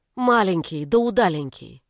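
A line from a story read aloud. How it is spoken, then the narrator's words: Plain. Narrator (Russian): сказала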